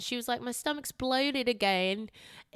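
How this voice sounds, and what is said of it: Put-on Australian accent. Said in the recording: “that's my best Australian accent”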